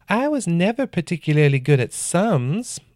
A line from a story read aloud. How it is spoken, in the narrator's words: the man said in an unsettlingly feminine voice